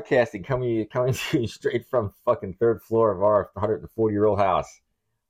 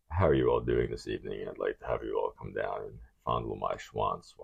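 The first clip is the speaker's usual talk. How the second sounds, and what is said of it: Very deep, sexy-toned voice. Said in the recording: “I can throw my voice in a very deep voice”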